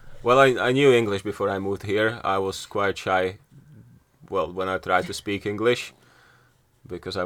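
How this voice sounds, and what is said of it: Slovakian accent with Yorkshire tinge. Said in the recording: “the best Slovakian Yorkshire accent I've ever heard”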